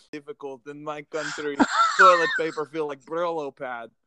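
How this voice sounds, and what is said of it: Put-on Russian accent. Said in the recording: “Do you remember talking in accents with my girls? ... It was some Russian accent or something like that.”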